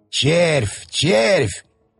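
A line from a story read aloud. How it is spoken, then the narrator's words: Excited trembling mutter. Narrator (Russian): бормотал дядюшка, и его голос дрожал от возбуждения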